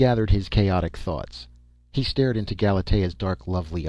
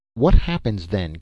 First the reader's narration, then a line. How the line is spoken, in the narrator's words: queried Dan desperately